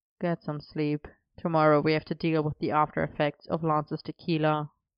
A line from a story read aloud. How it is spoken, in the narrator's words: Arthur murmuring